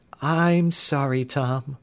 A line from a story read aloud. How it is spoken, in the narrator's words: Sandy replied in a mournful voice